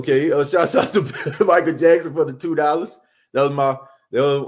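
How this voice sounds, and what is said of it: Usual voice. Nothing is said of it.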